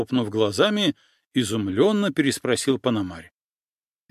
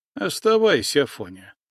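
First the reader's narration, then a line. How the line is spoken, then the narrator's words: Sighing. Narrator (Russian): вздохнул Андрейка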